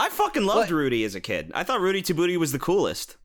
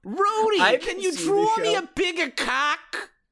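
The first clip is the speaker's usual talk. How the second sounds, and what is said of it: Exaggerated New York-New Jersey accent. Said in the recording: “they gave him a shitty New York accent ... I guess it was a New Jersey accent”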